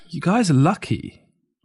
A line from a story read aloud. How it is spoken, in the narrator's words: Ma sighed emotionally and said to me